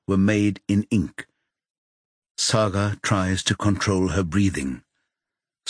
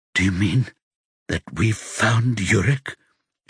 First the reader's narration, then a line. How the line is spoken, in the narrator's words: She whispers